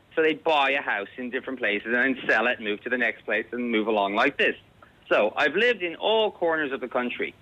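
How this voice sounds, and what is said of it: Irish speaker with American-sounding accent. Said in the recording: “everybody says I have an American. Are you from America? ... The American accent”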